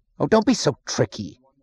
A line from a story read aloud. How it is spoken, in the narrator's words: snapped